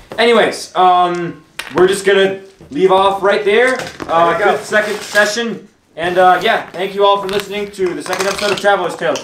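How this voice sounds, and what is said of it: Talking very loudly. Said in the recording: “There's a lot of noise going on, so I'm talking very loud.”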